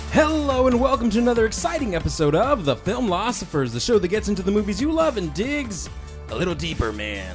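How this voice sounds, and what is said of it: Wolfman Jack impersonation. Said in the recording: “my Wolfman Jack impersonation.”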